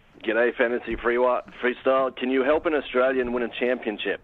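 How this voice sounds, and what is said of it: Australian accent. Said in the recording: “Is that is that is that your real accent? ... is that your real accent, or are you joshing me?”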